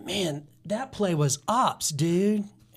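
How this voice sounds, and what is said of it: Put-on surfer accent. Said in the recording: “I like that surfer accent”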